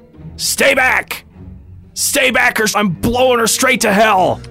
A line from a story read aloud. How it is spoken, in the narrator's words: he's going to yell out